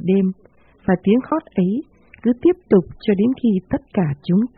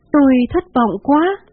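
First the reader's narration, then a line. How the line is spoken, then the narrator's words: Woman crying out. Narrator (Vietnamese): bà la lên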